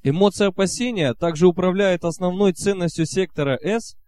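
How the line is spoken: Plain. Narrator (Russian): спросил другой участник

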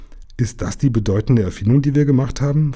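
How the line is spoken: Plain. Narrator (German): fragte Jim

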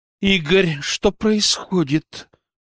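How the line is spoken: Through gritted teeth. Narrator (Russian): процедила Дина

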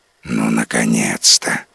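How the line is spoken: Dragon's relieved sigh. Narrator (Russian): облегченно вздохнул дракон

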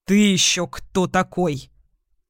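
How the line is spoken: Angry, through gritted teeth. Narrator (Russian): Зло процедил Сергей

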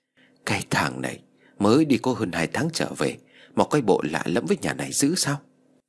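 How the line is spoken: Old woman muttering. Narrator (Vietnamese): bà Tư lẩm bẩm nói

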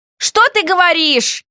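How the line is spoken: Loud surprise. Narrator (Russian): Громко удивилась я

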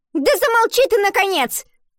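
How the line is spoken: Shout. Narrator (Russian): выкрикнула одноклассница

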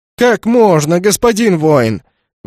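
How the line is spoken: Offended howl. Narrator (Russian): взвыл оскорбленный Зазывало

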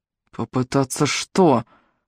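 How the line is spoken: Angry whisper. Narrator (Russian): Гневным шепотом спросил Джеб

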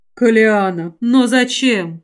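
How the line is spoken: Tired sigh. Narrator (Russian): устало вздохнул ректор

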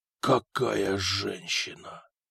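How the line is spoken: Admiring whisper. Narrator (Russian): восторженно прошептала Игина

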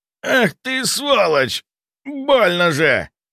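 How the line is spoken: Moaned in pain. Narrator (Russian): простонал он

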